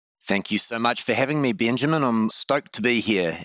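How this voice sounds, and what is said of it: Noticeable accent. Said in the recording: “apologize for my horrendous accent. ... I happen to like your accent,”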